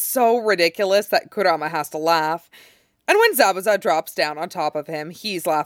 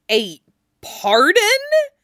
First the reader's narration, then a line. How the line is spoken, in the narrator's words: Shisui splutters, waving the Hokage scroll in disbelief